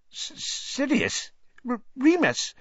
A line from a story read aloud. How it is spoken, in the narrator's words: Even Pettigrew's voice was squeaky